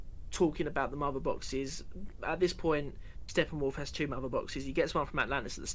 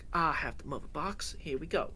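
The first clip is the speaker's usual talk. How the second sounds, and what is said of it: Bad American accent, imitating Cyborg. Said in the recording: “Don't know what that accent was. Really bad American accent”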